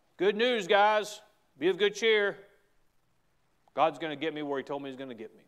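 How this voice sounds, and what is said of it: Southern American accent. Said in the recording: “the southern accent I have”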